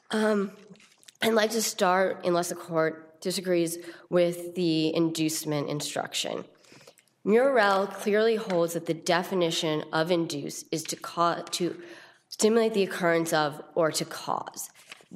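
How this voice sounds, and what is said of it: Voice strained from illness. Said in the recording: “I'm a little bit under the weather. I apologize for my voice.”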